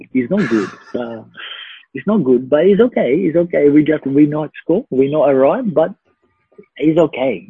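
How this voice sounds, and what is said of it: Impersonation of someone's speech. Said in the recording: “What an impersonation, by the way. Far out. ... that was very bad”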